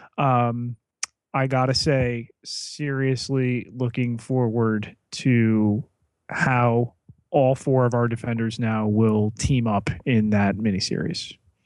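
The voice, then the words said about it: Tired-sounding voice. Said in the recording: “You may tell from my voice, I'm a little tired.”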